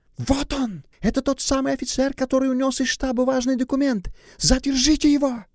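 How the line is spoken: Young woman shouting. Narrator (Russian): девушка остановилась, закричала

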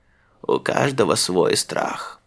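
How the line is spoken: Old man muttering. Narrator (Russian): бормотал дедушка Мыжи Тюмен

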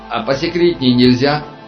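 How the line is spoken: Shouting over hissing steam. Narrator (Russian): закричал Аршинов, перекрывая голосом рассерженное шипение пара

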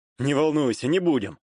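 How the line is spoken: Snort. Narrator (Russian): хмыкнул я в ответ на ее строгий взгляд

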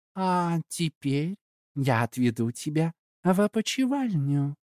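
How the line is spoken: Sweet voice. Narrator (Russian): она сказала сладким голосом

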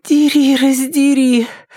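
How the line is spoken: Moaning. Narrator (Russian): простонала Триша главным образом для того, чтобы услышать собственный голос

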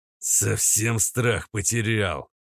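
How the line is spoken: Close hiss. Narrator (Russian): прошипел почти в самое лицо тринадцатый

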